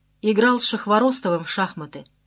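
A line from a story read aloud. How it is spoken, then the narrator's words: Plain. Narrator (Russian): сказал я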